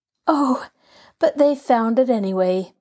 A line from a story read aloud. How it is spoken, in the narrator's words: breathed Nancy